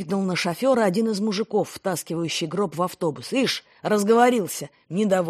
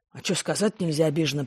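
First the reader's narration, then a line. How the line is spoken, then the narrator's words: Grumbling. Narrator (Russian): пробурчал он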